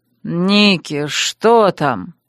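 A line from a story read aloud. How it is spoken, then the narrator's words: Sleepy yawn. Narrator (Russian): зевнул, сонно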